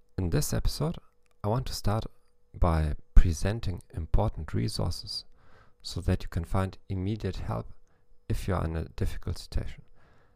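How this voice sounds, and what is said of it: German-accented English. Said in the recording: “the only psychology podcast in the world in English with a German accent.”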